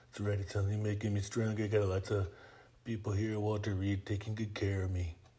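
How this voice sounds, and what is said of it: Imitates another person's voice. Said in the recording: “we can do some Trump”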